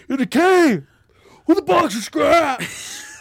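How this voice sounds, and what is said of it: Yelling imitation of another person's voice. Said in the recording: “my Jeff Bridges yelling impersonation... It's not very good”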